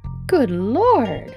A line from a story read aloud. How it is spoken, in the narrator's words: exclaimed poor Mrs